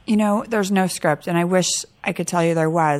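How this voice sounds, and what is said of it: Lower, hoarse, fading voice. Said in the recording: “losing my voice ... I sound worse ... not having that high-pitched voice”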